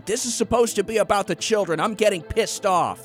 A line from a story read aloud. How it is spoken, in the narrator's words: She screamed